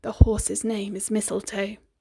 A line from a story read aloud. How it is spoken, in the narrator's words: The mirror whispered sweet and low